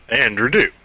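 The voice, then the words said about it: Deep announcer intro voice. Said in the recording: “what's with deep voice? ... It's my intro voice.”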